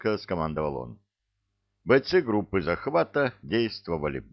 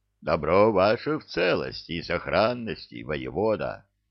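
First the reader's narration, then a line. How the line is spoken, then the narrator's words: Giant's deep bass. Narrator (Russian): басил меж тем гигант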